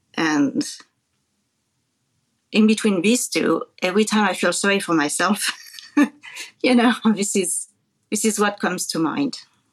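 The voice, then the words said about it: French accent. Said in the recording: “if you hear her accent, is from France originally”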